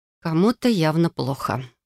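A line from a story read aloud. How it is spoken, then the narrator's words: Sigh. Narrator (Russian): вздохнула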